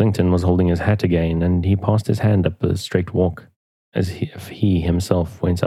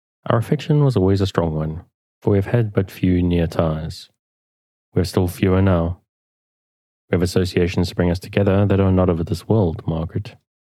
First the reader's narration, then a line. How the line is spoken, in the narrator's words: he said, tenderly